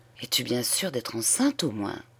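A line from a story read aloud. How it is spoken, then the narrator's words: Fearful whisper. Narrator (French): il demanda tout bas, comme s'il eût craint que ses paroles fussent entendues par les murs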